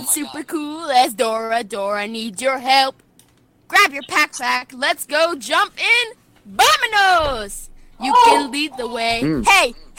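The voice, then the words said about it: Singing in a Kermit the Frog voice. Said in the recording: “best Kermit the Frog impression while you sing it”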